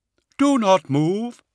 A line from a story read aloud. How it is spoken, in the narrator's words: Brother Atias said in his hollow voice